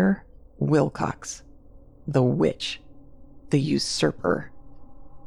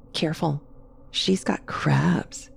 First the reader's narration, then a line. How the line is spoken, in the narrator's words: she'd whisper